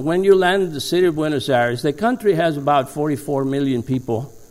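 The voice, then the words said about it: Argentine Spanish accent in English. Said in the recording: “when people ask me about my accent ... I was born and raised in the city of Buenos Aires in Argentina”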